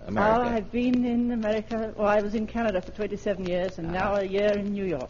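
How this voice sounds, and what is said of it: Slight English London accent. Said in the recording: “you have a slight accent there, like it might be an English accent. ... London”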